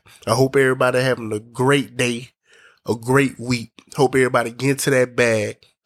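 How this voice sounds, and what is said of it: Voice sounds a little sick. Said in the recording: “I sound a little different, that's because I'm a little I'm a little up under the weather”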